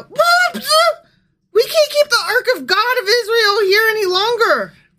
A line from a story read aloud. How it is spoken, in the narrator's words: they cried out